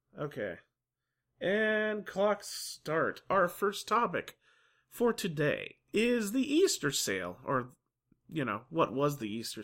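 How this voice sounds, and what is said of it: Weird, congested voice from a cold. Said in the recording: “If my voice sounds weird, I'm recovering from a cold... a little bit more mellow and slightly harder to understand”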